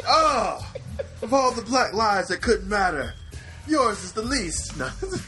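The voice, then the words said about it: Bad put-on Italian accent. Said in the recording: “I don't know where that took a turn to, like, Italian ... it was a terrible accent”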